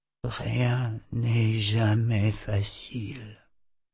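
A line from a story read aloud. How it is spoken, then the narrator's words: Quiet murmur. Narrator (French): murmura-t-il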